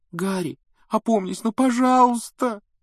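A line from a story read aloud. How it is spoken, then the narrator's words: Tearful pleading. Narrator (Russian): Со слезами взмолилась Гермиона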